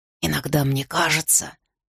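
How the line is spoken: Whisper. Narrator (Russian): шепотом сказал Арден

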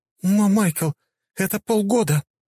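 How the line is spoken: Elf woman's exclamation. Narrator (Russian): воскликнула эльфийка

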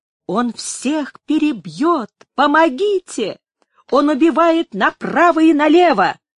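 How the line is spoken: Fleeing woman's scream. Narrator (Russian): Одна из бежавших закричала ему

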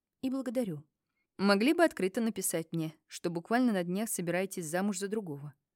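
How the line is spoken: Sighing, mildly pained. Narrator (Russian): Вздохнул Макс с легким страданием на лице

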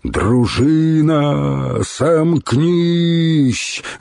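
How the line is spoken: Furious roar. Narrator (Russian): Разъяренным туром взревел Духарев

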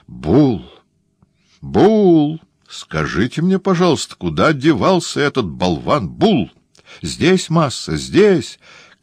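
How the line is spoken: Trembling shout. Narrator (Russian): кричал негр дрожащим голосом

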